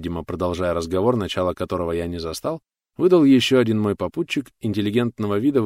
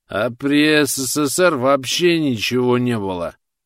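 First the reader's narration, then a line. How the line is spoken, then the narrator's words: Tipsy young man objecting. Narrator (Russian): возразил заметно поддатым голосом третий, лощеный молодой человек лет 20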